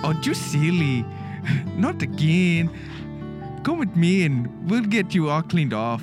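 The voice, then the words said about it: Put-on Spanish accent, feminine voice. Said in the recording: “sound a little feminine, please... Do like a Spanish accent”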